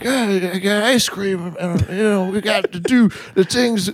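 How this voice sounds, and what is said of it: Sleepy imitation of another person's voice. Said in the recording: “worst Joe Biden impression because it just turns into Bill Cosby ... it's sleepy. It's a sleepy impression.”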